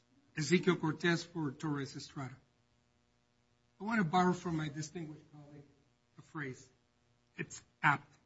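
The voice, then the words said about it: Speaks English with a foreign accent. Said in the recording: “Sorry, my accent.”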